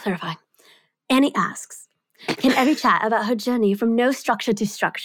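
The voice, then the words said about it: Put-on British accent. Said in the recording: “I don't know where the British accent came from.”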